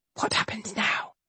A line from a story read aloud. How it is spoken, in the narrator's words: To Rosamond, she whispered